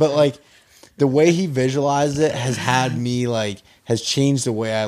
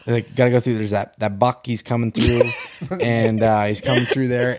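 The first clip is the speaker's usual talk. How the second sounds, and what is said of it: Imitates another person's voice. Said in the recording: “You gotta do his voice when you do it. You do a real good Johnny Stewart.”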